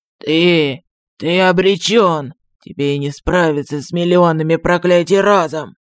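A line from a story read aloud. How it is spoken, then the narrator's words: Croak. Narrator (Russian): прохрипел Артокс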